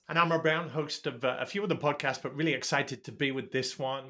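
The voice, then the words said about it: English accent. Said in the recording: “You can tell with my English accent”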